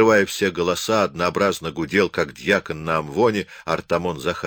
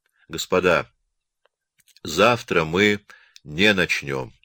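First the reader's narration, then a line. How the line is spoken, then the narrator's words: Calm. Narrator (Russian): заговорил Муравьев спокойным голосом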